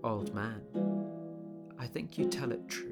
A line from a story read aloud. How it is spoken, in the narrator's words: Quietly the stranger murmured